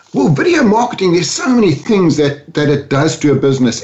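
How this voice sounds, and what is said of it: Mixed South African-British English accent. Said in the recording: “I grew up in South Africa, moved to London when I was 40 years old, and now live between Spain, London, and Orlando. So I've got a bit of a mongrel accent.”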